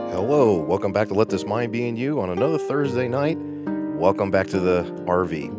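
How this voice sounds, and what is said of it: Slightly froggy, hoarse voice. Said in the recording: “my voice is a little bit froggy, just a tad bit, but just a slight little bit of a cold”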